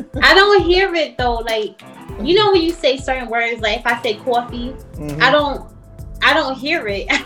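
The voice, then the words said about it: New York accent. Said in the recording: “I'm a native New Yorker... If y'all hear an accent... So you got that New York accent?... I definitely heard it when you said coffee.”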